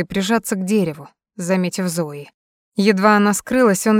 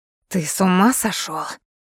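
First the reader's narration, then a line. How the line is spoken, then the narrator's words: Hissing. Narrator (Russian): зашипела Лин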